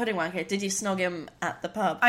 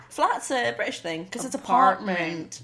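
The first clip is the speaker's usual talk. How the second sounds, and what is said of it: Bad put-on American accent. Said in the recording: “That was a really bad American accent.”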